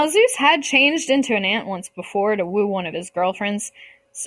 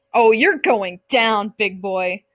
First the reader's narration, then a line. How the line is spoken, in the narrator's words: Zeus yelled